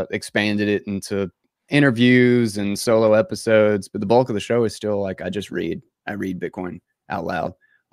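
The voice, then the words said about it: Southern drawl, North Carolina accent. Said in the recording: “All with the Southern drawl ... North Carolina.”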